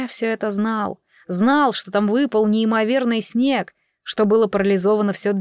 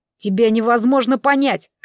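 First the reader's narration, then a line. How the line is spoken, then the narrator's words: Shouted. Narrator (Russian): кричал он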